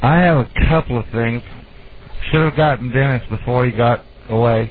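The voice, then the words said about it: Southern accent. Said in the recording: “that wonderful southern accent of yours”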